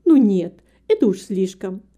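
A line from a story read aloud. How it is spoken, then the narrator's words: Exclaiming kind woman. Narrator (Russian): воскликнула добрая женщина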